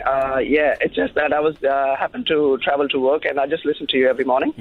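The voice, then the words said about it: Hoarse, lost voice. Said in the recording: “excuse my voice. I've lost my voice”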